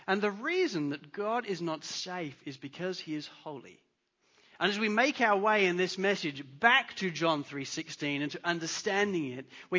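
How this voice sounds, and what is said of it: English accent. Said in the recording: “I'm English. You could tell by my accent.”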